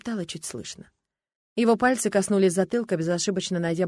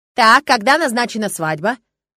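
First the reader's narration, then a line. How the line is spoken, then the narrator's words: Sudden sharp question. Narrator (Russian): Вопрос Эдмонда прозвучал неожиданно и резко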